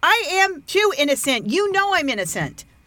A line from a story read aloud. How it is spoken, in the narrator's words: Alice cried out